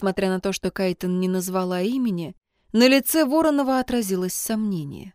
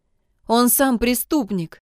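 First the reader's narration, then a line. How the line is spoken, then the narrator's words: Almost plaintive. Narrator (Russian): продолжила Кай почти жалобно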